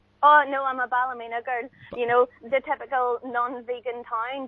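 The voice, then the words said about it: Slightly posh Northern Irish accent. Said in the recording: “you sound a little posh, Ballymena”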